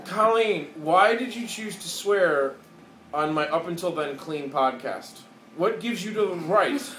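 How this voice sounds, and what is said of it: Carefully enunciated radio voice. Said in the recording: “Radio voice. ... Maybe that's just the way I like to enunciate.”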